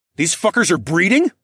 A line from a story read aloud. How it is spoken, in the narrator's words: I blurted out